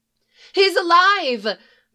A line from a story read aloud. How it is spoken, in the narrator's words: cried, falling to her knees